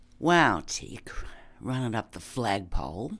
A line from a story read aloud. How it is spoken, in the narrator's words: Sprig muttered